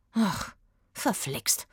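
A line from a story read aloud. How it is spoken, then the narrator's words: Mutter. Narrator (German): murmelte Eggy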